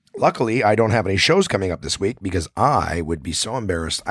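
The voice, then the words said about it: Raspy, strained voice. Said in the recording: “my raspy voice ... not be good for my fucking voice ... about as bad as my voice was on Saturday night”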